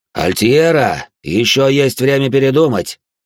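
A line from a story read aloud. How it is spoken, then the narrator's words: Loud. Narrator (Russian): громко сказал Элир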